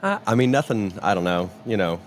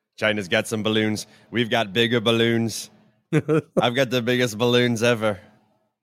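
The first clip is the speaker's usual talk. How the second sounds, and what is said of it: Bad Donald Trump impression. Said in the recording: “worst Trump impersonation ever”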